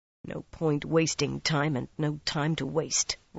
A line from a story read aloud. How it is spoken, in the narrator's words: Rand muttered